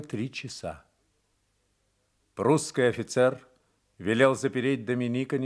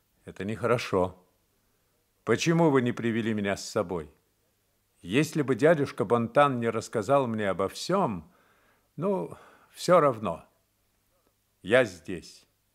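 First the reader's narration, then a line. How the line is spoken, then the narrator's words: Calm, almost stern. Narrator (Russian): спокойно, почти сурово сказал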